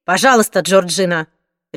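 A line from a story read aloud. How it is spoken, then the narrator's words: Sharp exclamation. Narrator (Russian): резким голосом воскликнула миссис Трейнер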